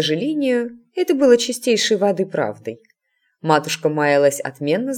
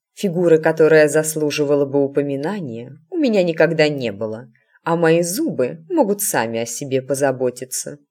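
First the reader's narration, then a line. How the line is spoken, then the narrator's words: Snorting. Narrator (Russian): хмыкнула матушка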